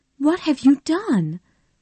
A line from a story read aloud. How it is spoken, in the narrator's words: Melanie asked her husband anxiously